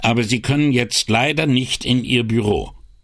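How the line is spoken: Loud interruption. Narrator (German): ging Brunetti mit lauter Stimme dazwischen

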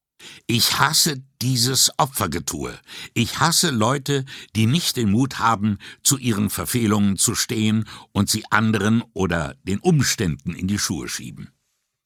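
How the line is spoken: Restrained angry hiss. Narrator (German): Wie um ihren Zorn zu bändigen, umklammerte sie mit einer Hand ihre Schulter und fauchte

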